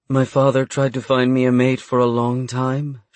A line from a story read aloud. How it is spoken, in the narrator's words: she sighed